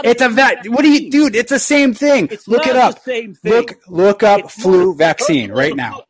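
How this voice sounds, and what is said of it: Yelling, raised angry voice. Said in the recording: “I'm yelling at you, but the only reason I'm doing it is because I have to match your level”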